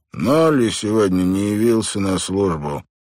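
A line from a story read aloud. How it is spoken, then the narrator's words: Calm, unperturbed tone. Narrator (Russian): продолжал Гелеспи тем же невозмутимым тоном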